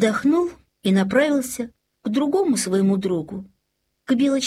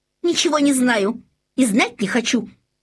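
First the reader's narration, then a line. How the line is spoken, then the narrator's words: Angry reply. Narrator (Russian): сердито ответила зайчиха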